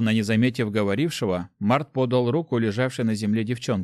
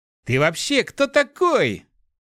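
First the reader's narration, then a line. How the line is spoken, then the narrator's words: Furious boy's exclamation. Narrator (Russian): яростно воскликнул мальчишка, которого оттолкнул Март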